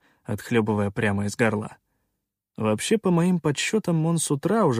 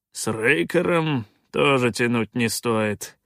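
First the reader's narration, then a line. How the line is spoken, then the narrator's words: Through gritted teeth. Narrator (Russian): процедил Калаан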